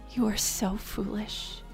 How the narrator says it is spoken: she muttered under her breath

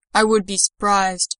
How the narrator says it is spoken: rumbled his response

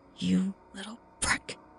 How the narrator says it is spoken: hissed

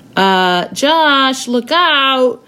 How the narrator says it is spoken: Matt called out to his friend

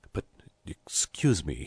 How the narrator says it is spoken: murmured

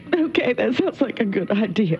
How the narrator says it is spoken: cries and says

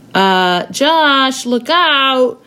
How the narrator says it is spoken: Matt called out

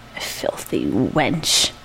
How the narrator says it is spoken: I muttered

